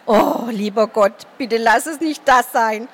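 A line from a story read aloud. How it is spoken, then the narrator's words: Silent pleading thought. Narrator (German): flehte in Gedanken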